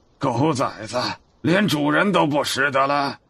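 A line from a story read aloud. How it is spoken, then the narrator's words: Angry. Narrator (Chinese): 齐木丁怒道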